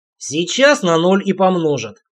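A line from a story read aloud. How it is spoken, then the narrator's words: Hoarse rasp. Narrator (Russian): прохрипел Олег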